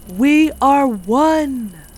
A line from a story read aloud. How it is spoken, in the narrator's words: Maria shouted with the others